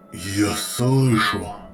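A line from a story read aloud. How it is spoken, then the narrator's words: Strained, through gritted teeth. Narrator (Russian): с трудом процедил Центурион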